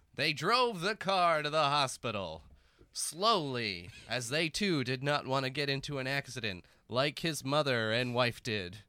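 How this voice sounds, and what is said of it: Dramatic storybook narrator voice. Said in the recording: “Do you want me to narrate in my narrator voice.”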